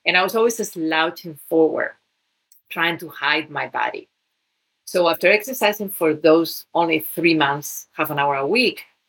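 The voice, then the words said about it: Spanish accent in English. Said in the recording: “I was one of the tallest girls in my country of origin, Spain. ... I have an accent.”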